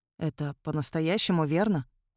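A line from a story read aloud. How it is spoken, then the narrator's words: Muffled question. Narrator (Russian): глухо спросил он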